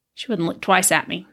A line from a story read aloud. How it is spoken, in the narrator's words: he muttered